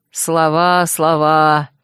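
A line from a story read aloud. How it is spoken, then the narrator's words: Mocking disbelieving snort. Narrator (Russian): насмешливо фыркнул дракон неверующий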